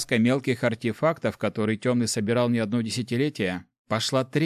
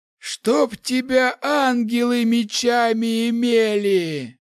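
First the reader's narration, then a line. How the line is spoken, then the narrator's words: Hoarse wheeze. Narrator (Russian): прохрипел маг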